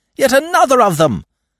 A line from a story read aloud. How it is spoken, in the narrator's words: A voice in the crowd, some 20 paces perhaps, was raised to shout